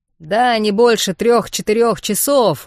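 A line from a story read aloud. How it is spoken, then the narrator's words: Cheerful shout. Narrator (Russian): бодро крикнул Вархар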